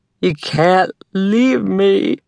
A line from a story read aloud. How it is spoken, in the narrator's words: her mother sobbed, slurring the words